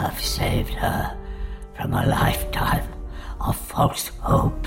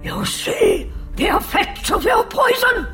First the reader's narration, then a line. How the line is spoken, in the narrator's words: Egrebel shouted